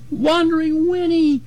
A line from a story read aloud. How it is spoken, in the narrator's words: little Jim sobbed behind me